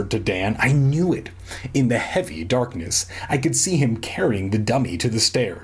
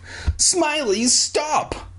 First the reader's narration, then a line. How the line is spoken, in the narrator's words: I screamed